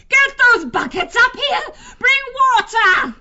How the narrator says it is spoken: Sarmina howled down the stairwell

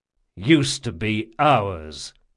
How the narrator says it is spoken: said Jean coldly

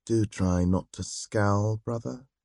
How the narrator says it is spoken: Sunday said in a low voice

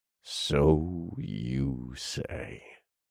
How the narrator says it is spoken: grunted

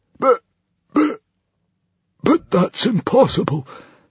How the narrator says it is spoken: stammered the hairy, scary librarian, turning very white

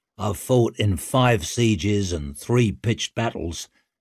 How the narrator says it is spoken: said Broad

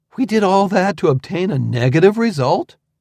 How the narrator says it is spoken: exclaimed

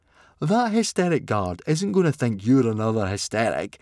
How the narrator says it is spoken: scoffed Fishlegs

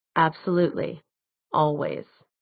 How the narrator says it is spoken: he murmured

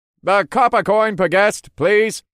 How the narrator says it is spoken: a voice called out over and over again

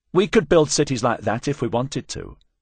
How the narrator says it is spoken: Mazarian said, her tone petulant

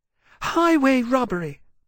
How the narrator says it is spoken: Poseitia said indignantly

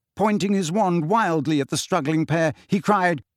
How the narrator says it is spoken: he cried

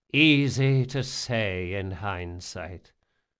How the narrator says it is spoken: the Grey King sighed

